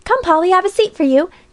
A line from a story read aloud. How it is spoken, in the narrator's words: cried Alexia